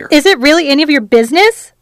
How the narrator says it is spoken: she almost blurted

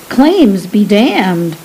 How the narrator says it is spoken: said Lysandra

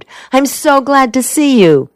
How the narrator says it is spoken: she exclaimed

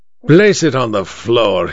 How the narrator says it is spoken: he growled

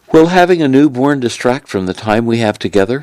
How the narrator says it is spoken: she asked

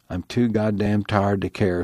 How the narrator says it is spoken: said Al

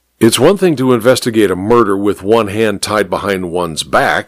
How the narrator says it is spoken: he grumbled unhappily

